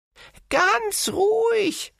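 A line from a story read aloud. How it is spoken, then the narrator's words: Dwarves laughing. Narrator (German): lachten die Zwerge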